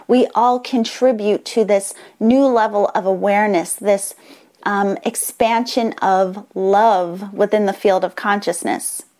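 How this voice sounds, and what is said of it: Excited, enthusiastic voice. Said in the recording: “you can probably tell in my voice, I'm so excited about this”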